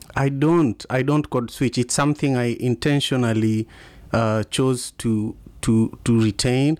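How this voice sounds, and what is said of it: Strong Kenyan accent. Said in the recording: “your Kenyan accent is still intact and strong after all those years in America ... it's lovely to hear the, the, nice strong Kenyan accent.”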